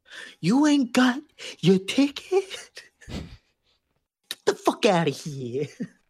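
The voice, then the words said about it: Impression of Sebastian Maniscalco. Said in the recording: “impression of Sebastian Maniscalco ... Sebastian Maniscalco as the conductor”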